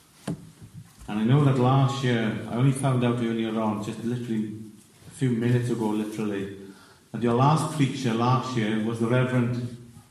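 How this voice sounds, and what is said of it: Welsh accent. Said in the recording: “there's a bit of a Welsh twang in my accent. I hail from South Wales”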